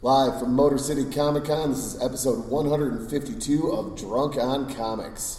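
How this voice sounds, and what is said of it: Hoarse, worn-out voice. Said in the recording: “my voice is completely shot”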